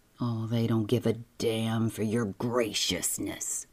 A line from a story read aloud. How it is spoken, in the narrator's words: Julian said savagely